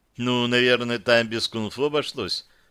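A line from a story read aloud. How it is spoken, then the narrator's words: Plain. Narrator (Russian): сказала Яна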